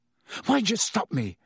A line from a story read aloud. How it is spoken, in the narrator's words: said Ron angrily